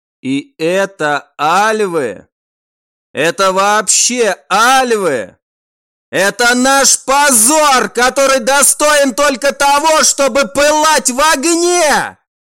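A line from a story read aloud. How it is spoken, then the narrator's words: Shouting. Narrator (Russian): А вот теперь и он кричал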